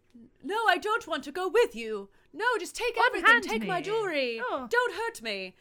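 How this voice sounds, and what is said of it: Dramatic, scared mid-Atlantic accent. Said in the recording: “Lisa has a mid-Atlantic accent. ... she sounds very dramatic, but also very scared.”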